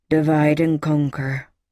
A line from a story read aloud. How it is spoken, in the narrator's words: Trout grumbled